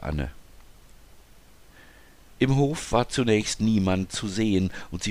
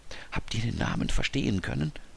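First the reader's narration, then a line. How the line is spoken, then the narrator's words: Whisper. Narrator (German): flüsterte Anna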